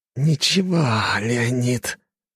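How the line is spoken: Hissed. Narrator (Russian): прошипел Датис

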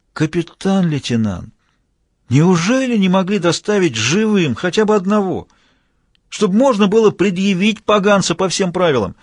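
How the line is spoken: Drawn-out, almost suffering. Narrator (Russian): протянул почти страдальчески

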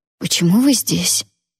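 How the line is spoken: Hoarse question. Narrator (Russian): хрипло спросила я

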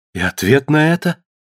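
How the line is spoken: Agitated question. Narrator (Russian): взволнованно спросила Таис

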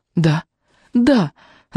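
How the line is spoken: Jealous sobbing. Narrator (Russian): зарыдала я, готовая кричать от переполнявшей меня ревности

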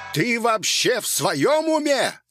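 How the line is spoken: Prolonged angry yelling. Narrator (Russian): священник орал на меня уже минут пять кряду

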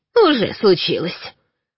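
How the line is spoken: Grumbling. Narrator (Russian): проворчала все та же неугомонная Галя

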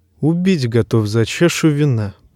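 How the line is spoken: Muttered, dwarf. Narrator (Russian): пробормотал карлик

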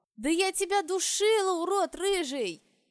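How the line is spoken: Shouting, strained. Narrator (Russian): Я уже кричала, видимо, не выдержав напряженных событий этого дня

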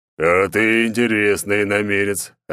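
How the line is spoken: Big man growling. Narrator (Russian): рыкнул здоровяк

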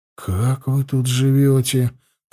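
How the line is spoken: Muttering under breath. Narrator (Russian): пробормотал я себе под нос

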